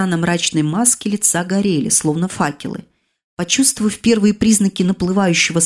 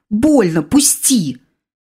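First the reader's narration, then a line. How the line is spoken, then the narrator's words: Exclaiming. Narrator (Russian): воскликнула я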